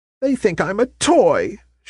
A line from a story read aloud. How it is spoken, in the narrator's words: she cried in dismay